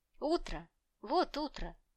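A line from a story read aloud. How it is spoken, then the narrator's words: Exclaiming close to ear. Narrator (Russian): воскликнула над самым моим ухом Элис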